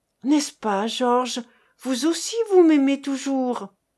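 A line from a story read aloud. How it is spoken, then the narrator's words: Stammering. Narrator (French): Sa voix n'était plus qu'un bégaiement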